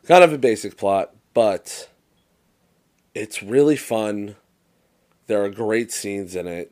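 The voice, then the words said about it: Hoarse, strained, fading voice. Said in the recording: “I'm losing my voice.”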